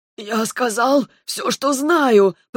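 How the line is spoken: Hoarse wheeze. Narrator (Russian): Прохрипел служитель

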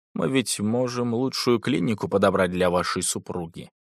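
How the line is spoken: Confidential hushed tone. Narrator (Russian): Он доверительно и тихо, чтобы никто не слышал, произнес

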